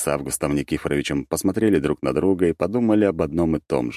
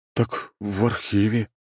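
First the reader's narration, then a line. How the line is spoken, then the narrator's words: Dejected voice. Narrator (Russian): упавшим голосом ответил Семушкин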